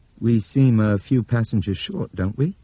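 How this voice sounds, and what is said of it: Crisp British accent. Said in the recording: “His British accent was almost as crisp as his shirt.”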